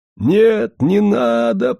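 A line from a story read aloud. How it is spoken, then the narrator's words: Pleading moan. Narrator (Russian): простонал Андрейка, как словно взмолился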